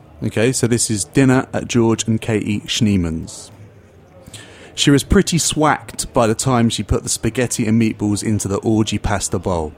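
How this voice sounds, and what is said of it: Put-on English accent. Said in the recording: “here is a food poem in an English accent”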